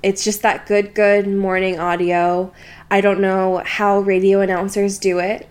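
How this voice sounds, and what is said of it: Slightly gravelly, tired morning voice. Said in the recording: “My voice is slightly graggly. I sound a little bit sick. I'm not. I'm just tired.”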